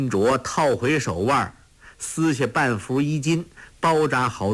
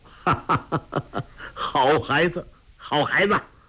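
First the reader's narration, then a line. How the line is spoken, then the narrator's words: Hearty laughter. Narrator (Chinese): 那个人哈哈大笑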